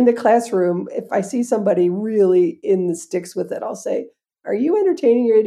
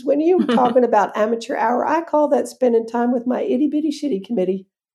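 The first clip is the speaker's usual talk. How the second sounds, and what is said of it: Put-on Southern accent. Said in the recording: “I don't remember if she had a Southern accent, but when I tell the story, she does.”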